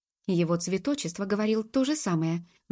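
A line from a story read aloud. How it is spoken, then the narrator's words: Exclaimed, slightly annoyed. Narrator (Russian): воскликнула Джуб, начиная слегка сердиться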